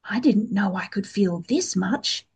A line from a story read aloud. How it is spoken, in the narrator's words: he whispered